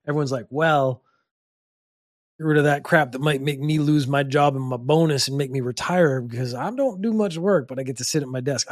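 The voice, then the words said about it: Put-on Western cowboy accent. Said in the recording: “sort of Western accents. I went a little cowboy there.”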